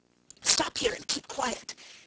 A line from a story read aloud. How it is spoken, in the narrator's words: whispered, when they had retreated out of all danger of being overheard